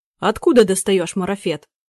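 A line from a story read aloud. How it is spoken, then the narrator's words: Abrupt bark. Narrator (Russian): Сходу гаркнул господин Громыкин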